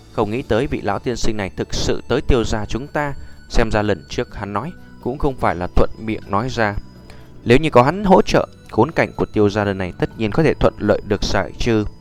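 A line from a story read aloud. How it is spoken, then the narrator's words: Joyful. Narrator (Vietnamese): mừng rỡ nói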